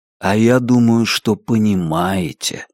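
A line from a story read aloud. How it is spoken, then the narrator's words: Soft. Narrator (Russian): сказал Делглиш мягко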